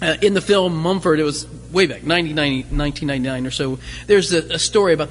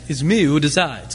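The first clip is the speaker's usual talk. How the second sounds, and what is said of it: Put-on French accent, Pepe Le Pew. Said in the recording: “with a French accent ... it's my Pepe Le Pew. It's the best I can do.”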